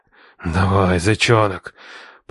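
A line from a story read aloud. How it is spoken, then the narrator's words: Growled. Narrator (Russian): прорычал я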